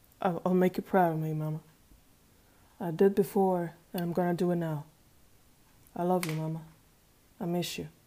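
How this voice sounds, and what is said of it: Southern US accent. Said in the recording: “His southern accent echoed a little in the empty room”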